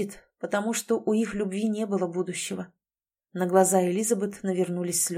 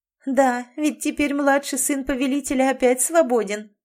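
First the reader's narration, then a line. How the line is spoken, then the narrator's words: Laughing. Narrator (Russian): засмеялась Берта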